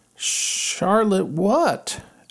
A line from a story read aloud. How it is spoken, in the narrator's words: asked Wilbur eagerly